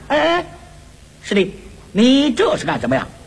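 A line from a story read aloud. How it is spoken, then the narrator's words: Hurried. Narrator (Chinese): 悟空急忙拦住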